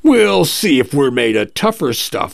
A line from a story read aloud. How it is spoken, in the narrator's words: the captain says brightly